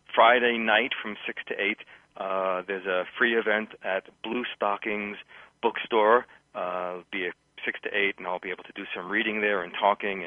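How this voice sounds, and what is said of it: New York accent, fast pace. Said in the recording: “New York, which is my hometown. Some people will hear that in my pace and style and accent”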